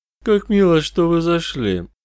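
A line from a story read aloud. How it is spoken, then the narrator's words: Pleasant, faintly menacing voice. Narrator (Russian): начал мистер Плоть приятным голосом, в котором слышалась едва уловимая угроза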